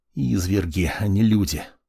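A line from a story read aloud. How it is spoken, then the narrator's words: Muttering to himself. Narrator (Russian): Пробормотал сам себе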